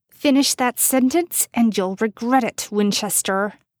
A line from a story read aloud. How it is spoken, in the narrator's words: Jess hissed